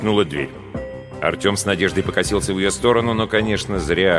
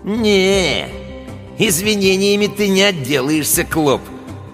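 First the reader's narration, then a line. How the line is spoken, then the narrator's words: Drawled with a smirk. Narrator (Russian): протянул Гусиныч, ухмыляясь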